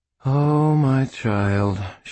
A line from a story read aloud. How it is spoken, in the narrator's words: she breathed after a moment